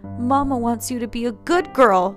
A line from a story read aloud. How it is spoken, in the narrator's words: the woman cried out, black tears streaming down her face